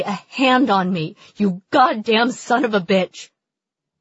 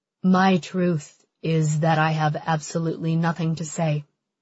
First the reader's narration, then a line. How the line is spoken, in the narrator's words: says quietly